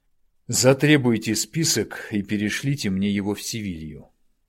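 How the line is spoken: Tired request. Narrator (Russian): устало попросил Дронго

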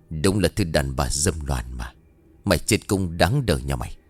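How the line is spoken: Old man, clenched teeth, word by word. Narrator (Vietnamese): lão lang đứng nghiến răng kèn kết, gằn giọng từng tiếng

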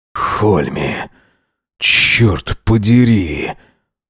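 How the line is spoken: Exhaled. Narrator (Russian): Выдохнул это

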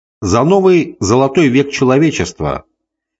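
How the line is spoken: Tipsy shouting. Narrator (Russian): кричал подвыпивший Скавр

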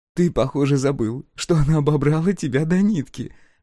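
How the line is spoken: Laughing. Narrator (Russian): рассмеялась Брин

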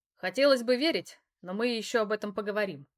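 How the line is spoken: Wry snort. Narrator (Russian): хмыкнул он

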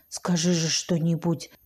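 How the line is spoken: Whispered in ear. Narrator (Russian): шептал он мне в ухо

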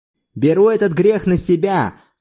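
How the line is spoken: Shouting. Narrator (Russian): крикнул он

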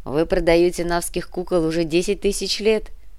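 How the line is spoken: Laughing. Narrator (Russian): рассмеялся Кортес

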